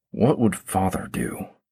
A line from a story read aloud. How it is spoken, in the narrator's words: He muttered under his breath